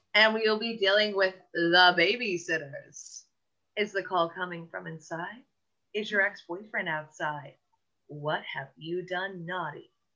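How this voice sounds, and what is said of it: Radio DJ announcer voice. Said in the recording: “I sounded like a radio just jockey right there”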